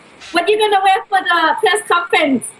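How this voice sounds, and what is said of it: Imitates her mother's accent. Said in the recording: “let me get my accent right.”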